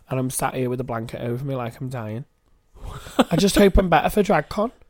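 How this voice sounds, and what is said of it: Congested, sick-sounding voice. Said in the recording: “I feel really ill today. Can you hear it in my voice? ... I can hear it in your voice. ... my nose is bunged up”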